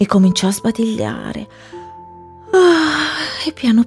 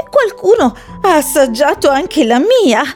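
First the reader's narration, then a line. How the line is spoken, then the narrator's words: Mother bear exclaiming. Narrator (Italian): esclamò mamma orsa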